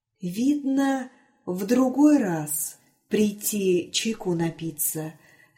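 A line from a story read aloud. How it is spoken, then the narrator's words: Whisper. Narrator (Russian): сказал Василий шепотом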